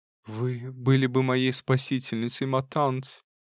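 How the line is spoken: Sad voice. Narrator (Russian): проговорила она печальным голосом

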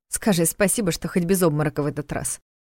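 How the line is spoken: Snorted. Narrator (Russian): хмыкнула Саша

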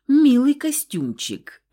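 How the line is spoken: Snorting, amused. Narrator (Russian): хмыкнул Сид

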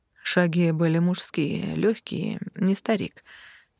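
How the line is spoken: Recalling. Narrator (Russian): припомнил Конрад

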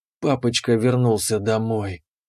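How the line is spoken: Breathy, smiling. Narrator (Russian): Выдохнула она с улыбкой

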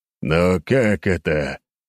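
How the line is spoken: Hateful growl. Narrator (Russian): начал неназываемый ... прорычав с ненавистью

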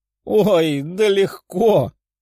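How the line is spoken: Girl's pleased laugh. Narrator (Russian): Девушка довольно рассмеялась

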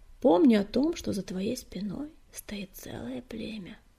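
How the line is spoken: Quiet reminder. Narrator (Russian): негромко напомнила целительница

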